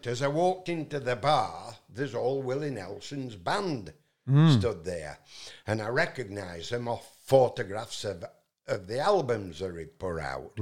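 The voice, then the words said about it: Yorkshire English accent. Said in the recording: “my Yorkshire accent”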